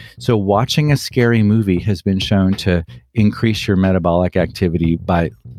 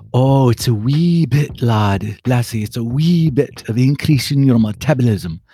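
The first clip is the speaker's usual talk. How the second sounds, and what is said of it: Put-on Scottish accent. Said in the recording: “in my best Scottish accent”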